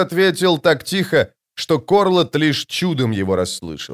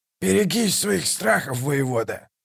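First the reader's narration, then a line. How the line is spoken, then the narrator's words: Growling. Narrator (Russian): прорычал Калор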